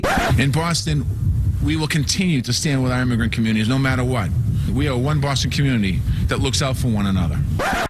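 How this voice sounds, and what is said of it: Boston accent. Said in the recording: “accent. I love it. ... that accent”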